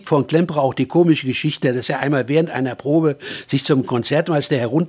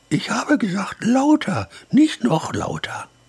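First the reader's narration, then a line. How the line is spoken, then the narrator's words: Very quiet, insistent. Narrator (German): Der Gefragte aber sagte ganz leise und eindringlich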